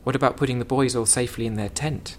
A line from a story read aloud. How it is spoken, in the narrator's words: he said